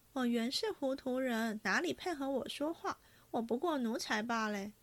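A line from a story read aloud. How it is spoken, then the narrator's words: Sneering. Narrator (Chinese): 晴雯冷笑道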